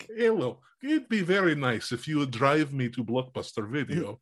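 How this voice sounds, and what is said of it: Exaggerated fake Russian accent. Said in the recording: “this ridiculous Russian accent”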